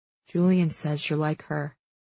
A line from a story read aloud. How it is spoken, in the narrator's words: he says quietly